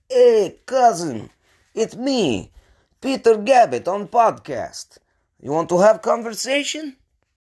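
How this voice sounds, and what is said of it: Put-on Russian accent. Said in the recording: “shoot him a quick Russian accent”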